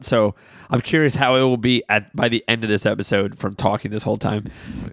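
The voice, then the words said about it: Hoarse, deeper, raspy voice. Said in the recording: “I'm losing my voice, can you tell? ... It sounds a little manlier, I think. ... Sounds like you smoke cigarettes.”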